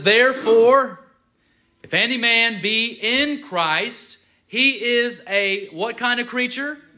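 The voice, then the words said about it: Slow, deliberate reading. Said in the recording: “I'm going to read it slowly so you hear.”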